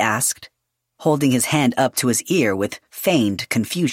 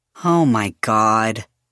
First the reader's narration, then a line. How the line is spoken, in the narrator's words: Yadriel groaned